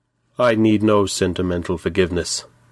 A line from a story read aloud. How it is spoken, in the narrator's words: he said coldly